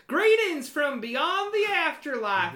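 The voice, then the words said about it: Silly ghost character voice. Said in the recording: “the silly, silly voice ... gave this character”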